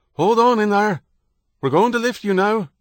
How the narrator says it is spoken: a voice called out

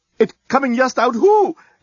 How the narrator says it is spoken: exclaimed the head reporter

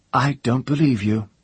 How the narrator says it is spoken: she said, and her voice shook

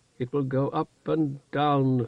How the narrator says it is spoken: she moaned in Kargish

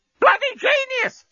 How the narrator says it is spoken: screamed the parrot over the intercom

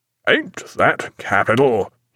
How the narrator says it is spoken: he cried

